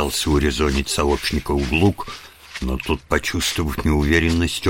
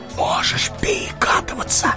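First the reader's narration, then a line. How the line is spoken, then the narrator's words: Whisper. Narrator (Russian): шепнул он ему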